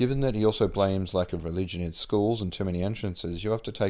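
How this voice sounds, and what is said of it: Usual voice. Nothing is said of it.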